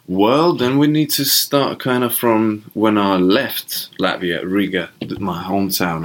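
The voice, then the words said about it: Funny Latvian accent. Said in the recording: “got this funny accent going on.”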